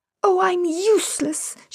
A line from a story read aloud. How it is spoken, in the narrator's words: cried, laughing